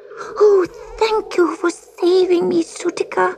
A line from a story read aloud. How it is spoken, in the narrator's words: sobbed Gobelino